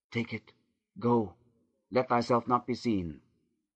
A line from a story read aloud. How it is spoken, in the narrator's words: Leah whispered with heaving breast